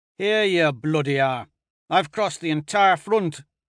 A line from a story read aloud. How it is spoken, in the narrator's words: barks